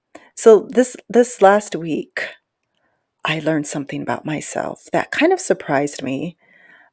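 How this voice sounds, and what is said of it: Whispering. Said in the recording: “I don't know why I'm whispering. I think it's because it's late and really quiet”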